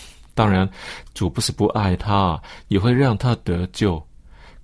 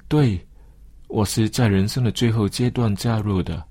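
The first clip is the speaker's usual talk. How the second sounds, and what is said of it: Quiet, sheepish murmur. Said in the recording (Chinese): “不好意思的小声说”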